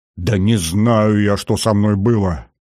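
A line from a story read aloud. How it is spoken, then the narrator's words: Irritated outburst. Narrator (Russian): Раздраженно ... полковник Лукьянин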